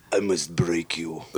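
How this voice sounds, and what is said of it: Dolph Lundgren impression, Swedish-Russian accent. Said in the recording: “Can you do a Russian accent? ... I can do Dolph Lundgren. ... A Swedish Russian accent.”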